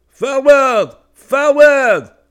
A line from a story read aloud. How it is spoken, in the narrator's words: an officer shouted